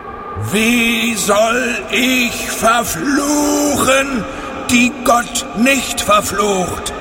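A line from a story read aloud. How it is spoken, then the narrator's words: Loud, far-carrying call. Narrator (German): rief er, und seine Stimme war weithin über das Land zu hören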